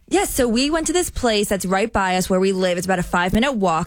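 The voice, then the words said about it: New Jersey accent. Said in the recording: “is from New Jersey, so you hear a lot of Jersey accent popping on the show.”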